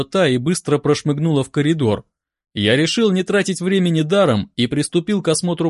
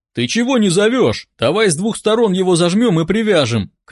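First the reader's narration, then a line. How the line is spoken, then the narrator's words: Shout. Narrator (Russian): крикнул тот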